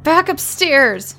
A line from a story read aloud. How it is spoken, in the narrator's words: Shelley yelled in response